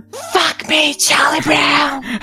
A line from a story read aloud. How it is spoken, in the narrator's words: whispered